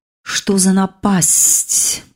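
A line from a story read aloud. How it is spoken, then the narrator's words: Hiss. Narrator (Russian): прошипела Эра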